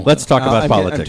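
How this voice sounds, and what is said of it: Loud imitation of another person's voice. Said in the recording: “I'm turning him way down. ... That was too loud? ... That was actually a pretty good imitation”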